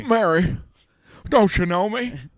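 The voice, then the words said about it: Imitates another person's voice. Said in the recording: “doing a Jimmy Stewart impression”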